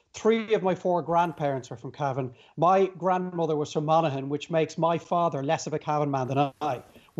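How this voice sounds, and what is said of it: Dublin Irish accent. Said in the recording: “He's got a Dublin accent”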